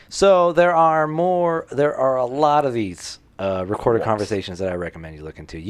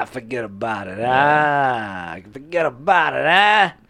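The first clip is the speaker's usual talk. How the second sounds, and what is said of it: Put-on Boston accent. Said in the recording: “a Boston accent”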